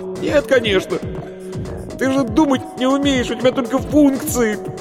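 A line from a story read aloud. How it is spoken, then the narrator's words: Loud laughter. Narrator (Russian): Варвара расхохоталась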